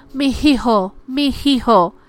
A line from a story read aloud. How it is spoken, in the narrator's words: she's known to shout, calling for a son that has been gone for generations